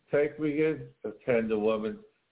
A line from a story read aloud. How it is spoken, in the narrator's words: sighed the snake